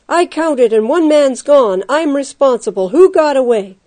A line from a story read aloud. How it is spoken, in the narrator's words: His shout rose to a terrifying pitch